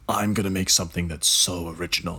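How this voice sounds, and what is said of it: Very deep character voice. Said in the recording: “this student had a very deep voice there”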